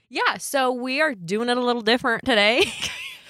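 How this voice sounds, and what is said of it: Put-on Western accent. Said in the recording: “you always get this Western accent when you introduce something.”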